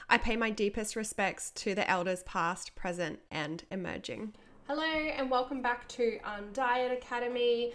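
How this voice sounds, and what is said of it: Croaky, hoarse voice. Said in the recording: “excuse my voice is still a bit croaky ... if I get a bit croaky”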